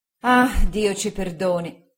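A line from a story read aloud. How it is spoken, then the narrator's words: Sighed. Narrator (Italian): sospirò mia zia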